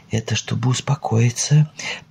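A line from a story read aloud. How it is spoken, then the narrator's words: Whisper to herself. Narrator (Russian): прошептала она про себя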